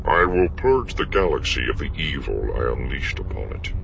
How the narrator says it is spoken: he said, his voice betraying nothing beyond firm resolution

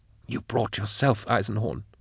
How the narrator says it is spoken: she whispered

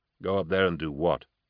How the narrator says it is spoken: he said quietly

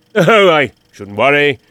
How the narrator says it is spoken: the stranger rumbled

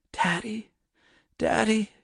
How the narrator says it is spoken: she whispered hoarsely

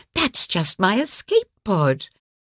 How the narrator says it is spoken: she began with a patronizing sneer

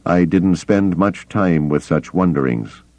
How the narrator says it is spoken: Kabauth said dryly

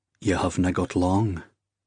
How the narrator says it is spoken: he said, quietly now

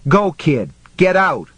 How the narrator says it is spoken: Johnny yelled

